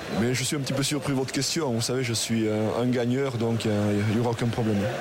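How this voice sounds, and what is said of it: Aquitaine regional French accent. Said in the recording (French): “votre accent aquitain”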